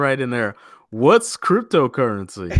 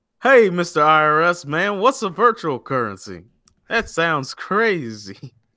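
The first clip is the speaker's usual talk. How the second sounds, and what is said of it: Put-on Alabama man accent. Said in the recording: “That's a pretty good Alabama man accent right there.”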